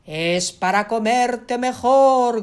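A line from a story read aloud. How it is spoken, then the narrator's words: Wolf shouting. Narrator (Spanish): gritó el lobo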